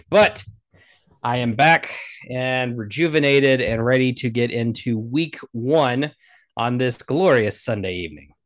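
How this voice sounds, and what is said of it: Raspy voice. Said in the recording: “Sorry for the raspy voice. A lot of salt water from the Atlantic.”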